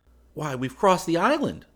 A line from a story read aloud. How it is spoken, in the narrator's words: I exclaimed